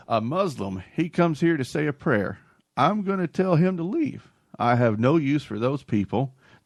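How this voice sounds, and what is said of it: Put-on Southern US accent. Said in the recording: “I'm going to attempt the Southern accent. I haven't done it in years.”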